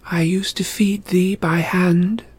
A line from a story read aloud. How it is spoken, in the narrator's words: Zoe continued, speaking in a soothing voice